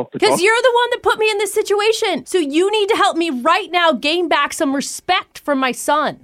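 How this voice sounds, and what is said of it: Yelling. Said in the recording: “stop yelling”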